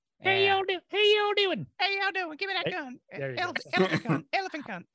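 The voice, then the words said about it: High-pitched Southern celebrity impression. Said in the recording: “Reba McEntire voice ... It's a little higher pitched than that ... Pretty good ... you nailed the timber, the high, but she speaks a little quicker.”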